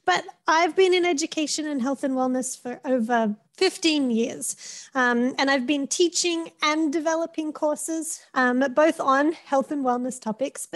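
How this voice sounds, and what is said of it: Australian accent. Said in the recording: “You can tell by my accent and by my name gives it away, I am Australian”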